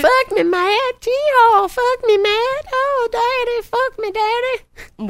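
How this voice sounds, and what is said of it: Mocking Southern accent. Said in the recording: “Southern accent's so easy to mock”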